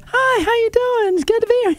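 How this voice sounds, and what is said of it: High-pitched mousy girl voice. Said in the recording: “the highest pitched, most mousy voice ever ... the mousy girl voice ... That's kind of close. ... It's almost like SpongeBob SquarePants, but a girl.”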